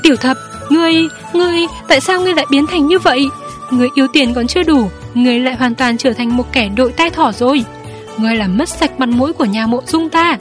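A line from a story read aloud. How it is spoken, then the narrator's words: Shaken, trembling voice. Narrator (Vietnamese): Lục ca có vẻ bị đả kích nặng nề, run run nói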